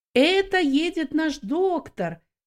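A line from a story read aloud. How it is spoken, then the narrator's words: Shouting. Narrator (Russian): некоторые из них кричали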